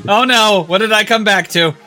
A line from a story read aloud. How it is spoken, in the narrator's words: I yelped